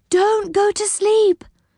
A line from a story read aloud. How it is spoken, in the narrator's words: cried Silky